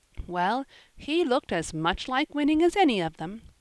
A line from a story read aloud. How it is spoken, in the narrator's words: said the lady, laughing